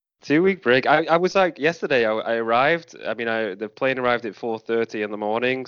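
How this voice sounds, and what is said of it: Tired, slightly hoarse voice. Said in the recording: “you can hear from my voice. I'm very I'm a bit exhausted, a bit hoarse in the voice.”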